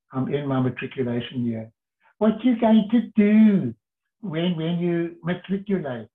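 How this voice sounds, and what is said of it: Put-on South African accent. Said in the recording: “I'm putting on my South African accent”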